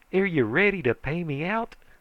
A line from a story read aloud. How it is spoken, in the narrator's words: he says eagerly